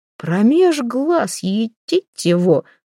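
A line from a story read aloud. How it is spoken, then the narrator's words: Father exclaiming. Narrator (Russian): воскликнул отец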